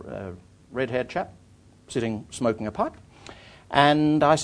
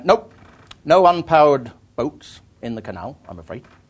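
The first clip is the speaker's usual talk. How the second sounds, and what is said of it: Put-on West Country English accent. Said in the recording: “I'm doing a West Country accent”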